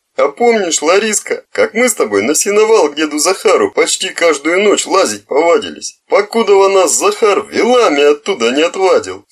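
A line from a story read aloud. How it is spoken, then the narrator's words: Laughing, spluttering. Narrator (Russian): смеялся, брызгая слюной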